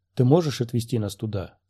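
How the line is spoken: Plain. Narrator (Russian): спросил Квайгон

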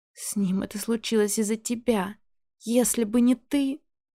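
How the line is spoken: Sobbing. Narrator (Russian): Олеся начинает всхлипывать

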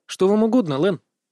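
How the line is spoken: Snorting. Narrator (Russian): Кэрри хмыкнул

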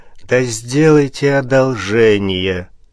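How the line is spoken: Bored voice. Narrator (Russian): скучным голосом сказал князь, кривя губы

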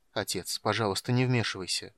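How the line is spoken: Mumbled. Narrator (Russian): пробормотал Полин

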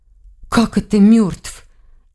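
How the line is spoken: Frightened question. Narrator (Russian): испуганно спросила Лиля

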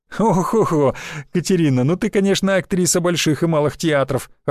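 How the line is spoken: Laughing loudly. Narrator (Russian): расхохотался

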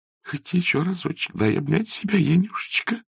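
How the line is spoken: Moaning. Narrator (Russian): простонала Арина Власьевна

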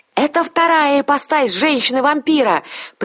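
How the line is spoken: Shouting right into ear. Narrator (Russian): прокричал он мне в самое ухо

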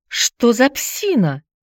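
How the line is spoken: Indignant cry. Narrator (Russian): возмущенно вскрикнула Алина

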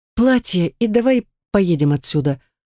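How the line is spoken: Tired. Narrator (Russian): устало произнесла я

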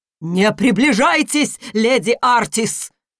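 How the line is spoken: Sudden strong commanding shout. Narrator (Russian): Внезапно сильным и властным голосом выкрикнул священник

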